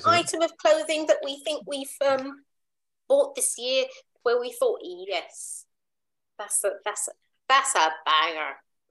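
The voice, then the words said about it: Terrible put-on Irish accent. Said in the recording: “I like the accent. ... terrible accent. ... That sounds Irish.”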